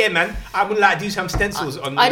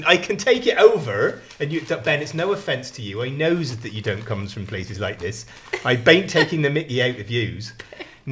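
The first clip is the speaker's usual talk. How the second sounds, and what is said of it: Put-on Bristol accent. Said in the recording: “Is he from Bristol? ... Where I can use this accent.”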